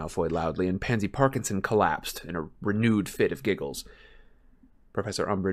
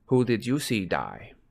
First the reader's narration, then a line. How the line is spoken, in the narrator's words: She asked, her tone indifferent